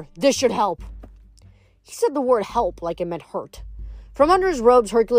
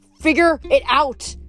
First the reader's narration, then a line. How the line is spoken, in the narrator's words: the god snapped